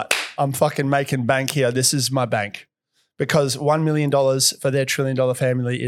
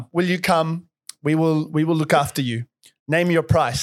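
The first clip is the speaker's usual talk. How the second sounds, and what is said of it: Put-on foreign accent. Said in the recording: “I don't know what accent I'm doing right now.”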